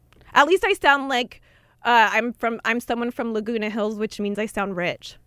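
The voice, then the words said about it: California girl accent. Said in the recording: “I sound like a girl from The Hills ... I'm a California girl, born and raised, baby. I got that California accent.”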